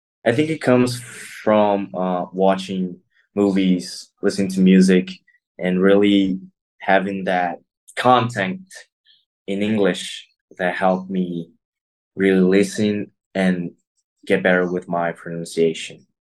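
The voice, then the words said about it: Near-native English accent, no Brazilian accent. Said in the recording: “your accent is almost perfect. You don't have a Brazilian accent like a lot of people do that study English as ... a ... second ... language. ... You have a ... really, really great accent.”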